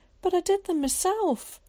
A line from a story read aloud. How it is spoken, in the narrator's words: he cried